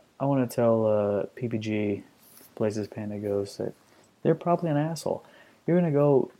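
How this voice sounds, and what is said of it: Usual voice. Nothing is said of it.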